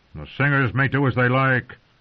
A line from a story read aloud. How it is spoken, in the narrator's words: Stannis snapped